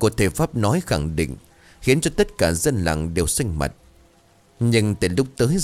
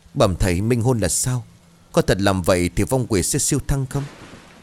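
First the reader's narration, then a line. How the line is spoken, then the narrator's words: Trembling voice. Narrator (Vietnamese): Chánh tổng bấy giờ run rẩy lên tiếng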